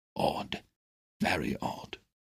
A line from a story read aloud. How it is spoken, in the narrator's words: muttering